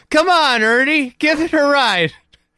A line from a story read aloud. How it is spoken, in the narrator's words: I yells